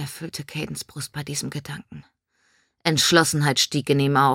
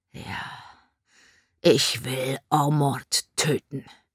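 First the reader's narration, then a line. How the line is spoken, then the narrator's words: Rough, blurted out. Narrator (German): stieß mit rauer Stimme hervor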